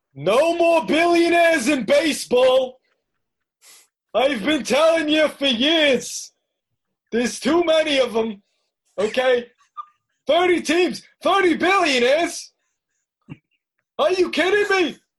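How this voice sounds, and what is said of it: Imitates another person's voice. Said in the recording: “can I get a Bernie accent going on”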